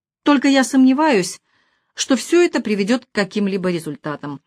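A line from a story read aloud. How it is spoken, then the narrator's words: Heavy sigh. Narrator (Russian): высказал свое мнение, тяжко вздохнув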